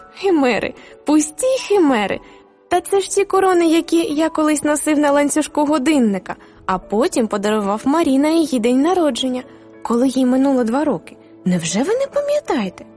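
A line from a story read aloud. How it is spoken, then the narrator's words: Laughing exclamation. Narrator (Ukrainian): хрещений засміявся і вигукнув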